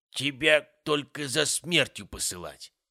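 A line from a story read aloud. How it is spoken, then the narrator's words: Grumbling old man. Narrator (Russian): проворчал дед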